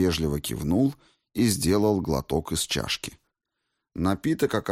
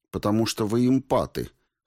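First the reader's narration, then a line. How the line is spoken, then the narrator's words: Snort. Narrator (Russian): хмыкнул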